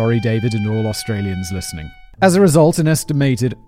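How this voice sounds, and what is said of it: Usual voice. Nothing is said of it.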